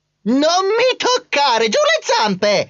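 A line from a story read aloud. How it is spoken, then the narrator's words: Cousin shrieking. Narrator (Italian): strillò mio cugino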